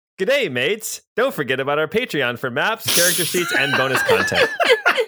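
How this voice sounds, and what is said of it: Put-on Australian accent. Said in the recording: “I'll be practicing my Australian accent for the rest of this intro ... It's uncanny. ... your accent is bonzer.”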